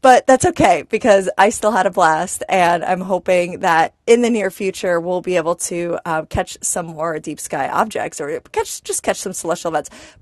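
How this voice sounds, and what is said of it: Raspy voice. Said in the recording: “I did catch a cold, so my voice is a little bit raspy today.”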